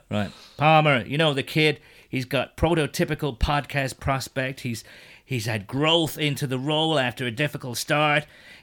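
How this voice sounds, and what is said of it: Mike Mayock impression. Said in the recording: “you've got to do mine in a Mike Mayock accent, so I hope you've got your best one lined up”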